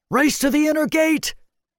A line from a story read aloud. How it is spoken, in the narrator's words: Matic shouted through a burst of hearty laughter